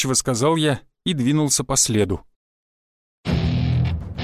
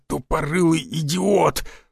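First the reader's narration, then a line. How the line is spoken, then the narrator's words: Pained angry growl. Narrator (Russian): прорычал Тесарев, схлопотав веткой в пах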